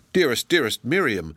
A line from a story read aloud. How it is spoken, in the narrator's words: exclaimed Hilda